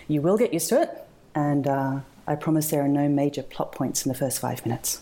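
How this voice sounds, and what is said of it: Australian accent. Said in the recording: “That's just my Australian accent.”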